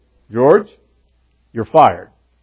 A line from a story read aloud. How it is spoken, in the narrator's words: the boss just very calmly says to him